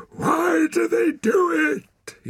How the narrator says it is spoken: He shouted

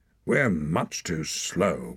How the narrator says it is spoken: growled Hord

